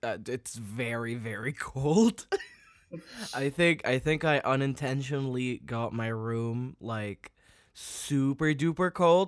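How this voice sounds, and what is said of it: Sounds a bit sick. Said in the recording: “I sound a bit sick.”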